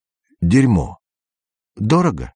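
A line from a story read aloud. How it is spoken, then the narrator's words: Uncertain short laugh. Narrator (Russian): Андрей неуверенно хохотнул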